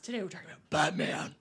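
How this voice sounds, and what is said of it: Batman voice impression. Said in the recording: “I'll say it in a Batman voice.”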